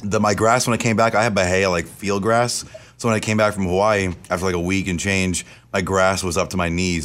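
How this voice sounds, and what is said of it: Hoarse, strained voice. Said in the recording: “What's wrong with your voice? ... My allergies. ... I lost my voice.”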